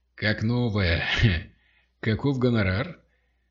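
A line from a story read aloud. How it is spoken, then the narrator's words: Laughing. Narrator (Russian): Тре рассмеялся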